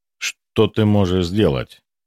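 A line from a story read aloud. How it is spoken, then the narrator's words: Sharp question. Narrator (Russian): резко спросил Гвидон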